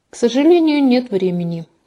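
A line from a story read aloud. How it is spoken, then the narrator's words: Sighing. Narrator (Russian): вздохнул Максимилиан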